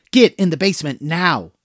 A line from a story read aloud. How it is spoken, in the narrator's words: hollered